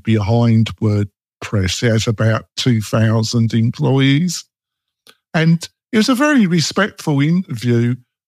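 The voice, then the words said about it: English accent. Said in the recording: “I can't understand my English accent.”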